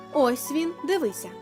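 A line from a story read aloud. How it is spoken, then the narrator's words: Plain. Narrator (Ukrainian): сказали вони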